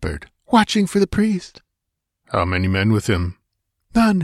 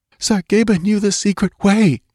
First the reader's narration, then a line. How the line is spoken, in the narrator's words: she gasped